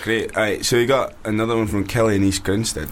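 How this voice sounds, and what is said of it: Bad put-on Scottish accent. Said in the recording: “Are you Scottish? ... I can pretend to be Scottish. ... good accent, mate. That was really bad.”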